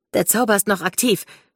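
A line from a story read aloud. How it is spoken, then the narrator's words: Called out. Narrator (German): rief Ruby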